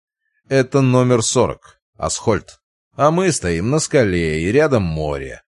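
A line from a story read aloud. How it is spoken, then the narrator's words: Irritated growl. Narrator (Russian): раздраженно рыкнул Варгас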